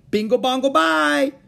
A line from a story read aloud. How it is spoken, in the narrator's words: shouted Howie, just to make some noise